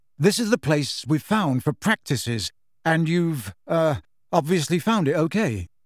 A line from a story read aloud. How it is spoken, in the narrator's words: said Harry, slightly nervously